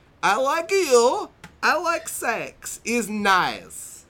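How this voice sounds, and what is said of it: Over-the-top Italian/Borat-style accent. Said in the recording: “It's a ridiculous over-the-top accent. Very Italian. Italian going into like Borat almost. ... Very Borat-esque ... I'm going to read it in the best accent that I can here.”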